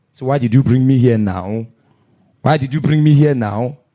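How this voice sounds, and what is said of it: Deep man-like possessed voice. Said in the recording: “her voice changed ... talking like a man”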